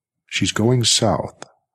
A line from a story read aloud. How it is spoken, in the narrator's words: Ralph said smoothly